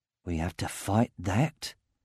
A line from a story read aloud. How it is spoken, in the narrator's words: muttered Ivor behind Roran